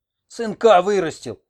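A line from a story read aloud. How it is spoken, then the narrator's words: Yelling. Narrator (Russian): орал он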